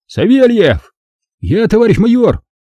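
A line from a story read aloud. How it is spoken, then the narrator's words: Shouted right into ear. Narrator (Russian): прокричал мне в самое ухо начальник полкового медпункта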